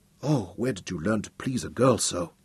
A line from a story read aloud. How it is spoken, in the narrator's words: Sukina asked breathlessly